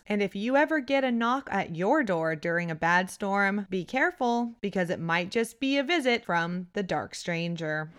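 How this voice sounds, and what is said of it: Allergy-affected voice, shifting pitch. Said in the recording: “my weird voice. It keeps getting deeper and then high pitch and then strangely deeper again ... fall allergies”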